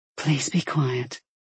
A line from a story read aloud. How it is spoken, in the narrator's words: she whispered